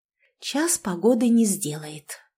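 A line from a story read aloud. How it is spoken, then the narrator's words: Whisper. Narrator (Russian): прошептала я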